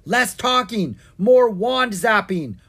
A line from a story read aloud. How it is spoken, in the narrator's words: Owen yelped